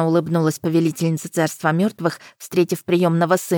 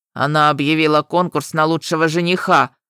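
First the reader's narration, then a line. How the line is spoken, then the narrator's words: Howling, teeth chattering. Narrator (Russian): взвыл Нетхёг, клацая зубами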